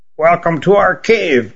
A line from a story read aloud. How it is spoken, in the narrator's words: rasped the old queen